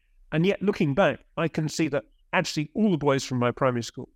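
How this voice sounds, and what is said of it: Middle-class English accent. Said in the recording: “as you can tell from my accent, I'm very kind of middle class”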